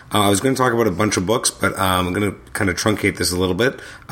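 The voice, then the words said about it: Sick, strained-sounding voice. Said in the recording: “As you can probably tell by my voice, I seem to have come down with something.”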